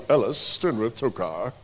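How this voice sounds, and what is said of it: Put-on British accent. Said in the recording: “You almost have to use that with a British accent”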